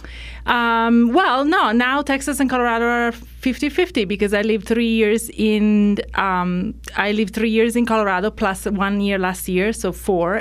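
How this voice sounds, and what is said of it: Mixed non-native English accent. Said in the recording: “my English accent is a little all over the place ... I learned English in London ... then I moved to Ireland”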